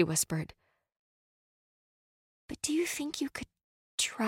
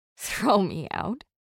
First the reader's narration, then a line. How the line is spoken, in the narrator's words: I scoffed